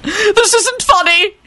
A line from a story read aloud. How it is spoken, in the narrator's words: he screeched violently